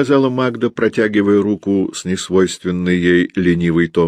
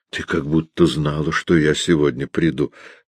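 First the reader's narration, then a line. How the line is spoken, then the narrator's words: Whisper, suppressing laughter. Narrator (Russian): прошептал он, сдерживая смех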